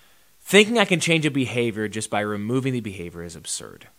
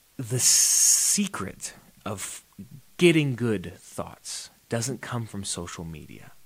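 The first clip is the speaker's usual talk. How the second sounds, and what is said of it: Whispering. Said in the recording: “I'm going to whisper this one.”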